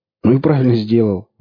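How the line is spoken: Exclaimed. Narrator (Russian): воскликнул Орех

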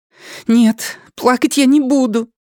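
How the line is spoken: Snapped angrily. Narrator (Russian): сердито бросила она

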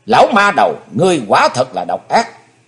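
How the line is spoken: Silent inner shout. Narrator (Vietnamese): Chí Tôn âm thầm hét lớn

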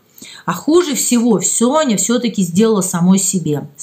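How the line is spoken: Plain. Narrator (Russian): сказала Любовь Андреевна

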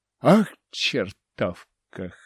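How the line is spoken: Snorted. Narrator (Russian): хмыкнул я

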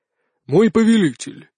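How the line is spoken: Solemn. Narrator (Russian): торжественно начал он

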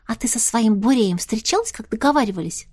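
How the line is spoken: Whisper. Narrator (Russian): зашептала Настя

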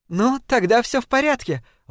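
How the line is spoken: Joyful laughing exclamation. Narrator (Russian): воскликнула Дафни с радостным смехом

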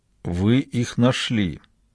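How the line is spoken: Slurred mumble. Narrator (Russian): еле ворочая языком, пробормотал

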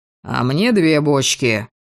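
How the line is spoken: Snort. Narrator (Russian): фыркнул Шейн

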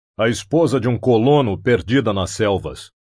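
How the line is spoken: Growl. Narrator (Portuguese): rosnou Conan

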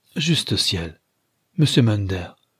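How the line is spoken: Housekeeper exclaiming. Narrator (French): s'écria la femme de charge

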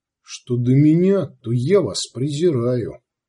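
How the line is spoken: Calm. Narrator (Russian): сказал Сварог спокойно

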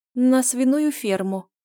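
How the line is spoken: Weak mumble. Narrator (Russian): промямлила слабым голосом

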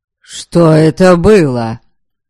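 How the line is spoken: Loud voice in silence. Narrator (Russian): В воцарившейся после сего происшествия тишине голос прозвучал особенно громко

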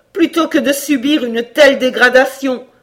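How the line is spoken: Horrified cry. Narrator (French): s'écria Cora, saisie d'horreur

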